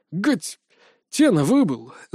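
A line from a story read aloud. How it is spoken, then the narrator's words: Angry, through gritted teeth. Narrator (Russian): зло процедил Дэм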